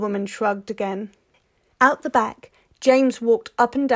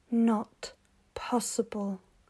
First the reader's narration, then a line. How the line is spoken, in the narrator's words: he muttered